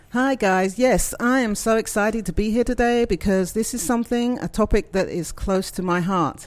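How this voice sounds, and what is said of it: English accent. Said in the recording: “as you can probably tell, I am not from these parts. I'm not a southerner. ... I love your accent. ... I'm from England”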